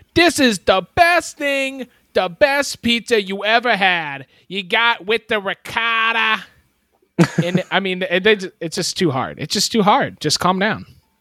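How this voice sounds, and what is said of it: Put-on New York accent. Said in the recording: “likes to put a New York accent inside of its descriptions”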